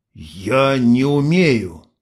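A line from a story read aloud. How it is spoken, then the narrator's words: Wounded-cobra hiss. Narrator (Russian): Ксения издала шипение раненой кобры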